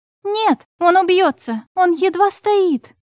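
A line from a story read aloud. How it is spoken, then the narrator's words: Shout then coughing. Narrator (Russian): прокричала и закашлялась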